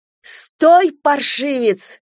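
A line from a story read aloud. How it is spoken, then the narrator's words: Shouting. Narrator (Russian): закричала Надежда Николаевна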